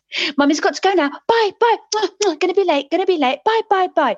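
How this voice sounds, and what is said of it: Child's hurried impersonation of mother. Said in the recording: “impersonations of people. And her impersonation of me was this.”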